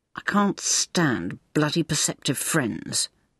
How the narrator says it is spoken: Maggie grumbled

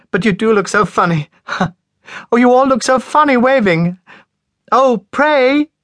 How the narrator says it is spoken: laughing helplessly

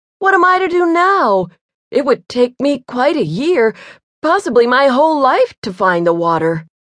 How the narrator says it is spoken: cried

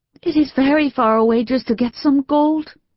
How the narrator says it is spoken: he whimpered

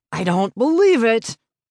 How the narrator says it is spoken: bellowed with rage

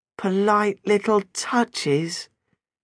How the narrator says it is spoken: Jenna added in an agonised voice

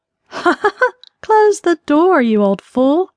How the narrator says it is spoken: she returned his chuckle

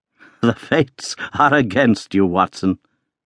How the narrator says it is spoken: said he, laughing

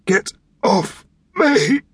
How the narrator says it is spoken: The words he'd intended to shout came out a long way short of a whisper

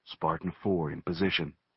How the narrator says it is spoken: He reported to Swain in a low voice

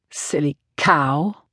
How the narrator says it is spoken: Marcus Dowling muttered

